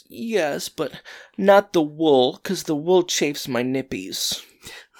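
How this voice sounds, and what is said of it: Gross whiny character voice. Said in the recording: “in the grossest whiny voice I've ever heard, and it was terrifying”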